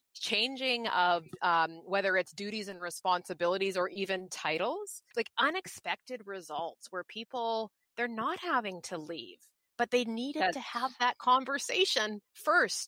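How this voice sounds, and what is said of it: Excited, animated voice. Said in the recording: “as you can tell from my voice, it gets me excited.”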